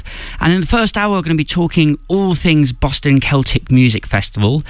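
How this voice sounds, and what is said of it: English accent. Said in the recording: “this lovely English accent”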